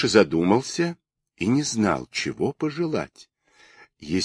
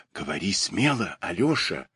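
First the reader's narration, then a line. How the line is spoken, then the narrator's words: Whisper in ear. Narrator (Russian): шепнул ему на ухо министр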